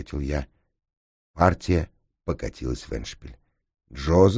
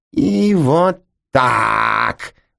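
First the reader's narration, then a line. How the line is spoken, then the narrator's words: Roaring. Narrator (Russian): взревел Джозеф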